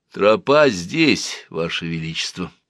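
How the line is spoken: Unexpectedly quiet, secretive, fading. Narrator (Russian): сказал он неожиданно тихо, точно сообщал какую-то тайну, и его голос совсем потерялся в пространстве

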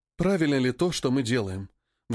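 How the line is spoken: Sigh. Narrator (Russian): Вздохнула она

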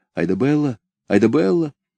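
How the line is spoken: Whispered call. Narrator (Russian): шепотом позвал

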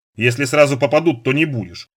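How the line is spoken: Wry, mildly forgiving snort. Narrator (Russian): хмыкнул Сошин, который, судя по всему, не умел долго и всерьез сердиться на своего водителя

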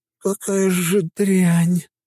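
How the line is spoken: Dryad's moan. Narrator (Russian): простонала моя дриада

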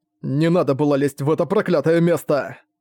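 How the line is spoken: Hissed through teeth. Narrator (Russian): Сквозь зубы прошипел Ван Буэлэ

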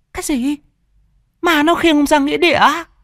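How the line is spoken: Horrified woman's scream. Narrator (Vietnamese): Mụ vợ hét lên kinh hãi

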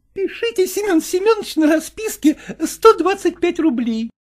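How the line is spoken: Lady giggling. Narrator (Russian): хихикала дама

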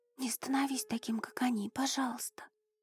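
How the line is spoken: Girl whispering. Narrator (Russian): шептала девушка

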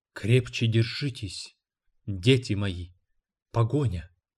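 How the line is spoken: Whispering while running. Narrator (Russian): только шептала

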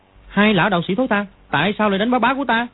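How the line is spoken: Angry child shouting. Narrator (Vietnamese): thì nó tức giận bước tới, quát

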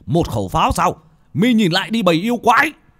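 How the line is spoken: Wounded man shouting. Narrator (Vietnamese): Một vị pháp sư, khắp người đầy máu tươi, vết thương vẫn chảy máu, mà quát lên

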